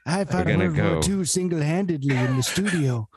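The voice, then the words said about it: Soothing grandpa-like voice impression. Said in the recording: “That was a great Reagan. Rare. ... Nice Reagan, buddy. ... his Reagan impression ... he does have a soothing grandpa voice”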